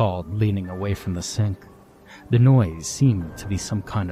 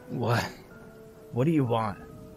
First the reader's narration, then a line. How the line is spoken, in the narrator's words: rasp